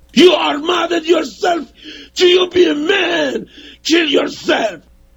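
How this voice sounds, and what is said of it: Screaming at the top of lungs. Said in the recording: “You keep on yelling in my ear. You're screaming at the top of your lungs.”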